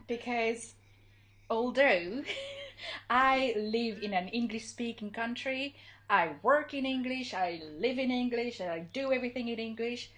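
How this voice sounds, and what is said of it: Non-native English accent, somewhat British-sounding. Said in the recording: “my awful, awful accent ... But you sound so British ... my accent hasn't improved”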